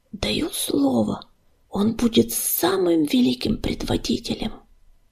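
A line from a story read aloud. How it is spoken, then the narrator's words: Admiring whisper. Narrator (Russian): Не сводя восхищенных глаз с Огнезвезда, она прошептала дыму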